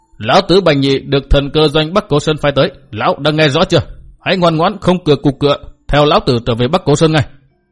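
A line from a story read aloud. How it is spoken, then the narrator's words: Loud calm shout. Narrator (Vietnamese): Bành Nhị ung dung, miệng quát lớn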